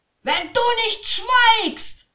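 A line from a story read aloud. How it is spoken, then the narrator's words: Angry shout. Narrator (German): schrie er den Troll an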